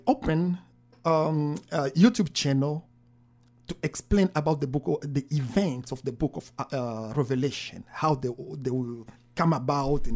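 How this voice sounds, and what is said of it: French accent. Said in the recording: “if you can hear my accent, it's a French accent”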